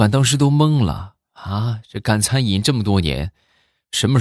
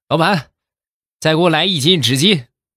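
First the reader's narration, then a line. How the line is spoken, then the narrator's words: Loud shout. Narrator (Chinese): 开口就冲老板就大喊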